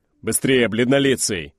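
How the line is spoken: Man's barked shout. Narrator (Russian): гаркнул индеец

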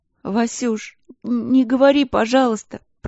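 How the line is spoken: Little sister sobbing. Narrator (Russian): Продолжала всхлипывать сестренка

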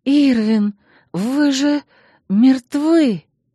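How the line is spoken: Breathless, suffocating exhale. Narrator (Russian): Выдохнула я, буквально задыхаясь от смрада и тяжести мужского тела, придавившего меня к кровати

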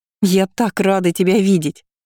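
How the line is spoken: Happy laughter. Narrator (Russian): Лу счастливо засмеялась

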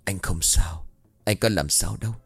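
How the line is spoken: Softly. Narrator (Vietnamese): Trành lại tiếp tục nhỏ giọng

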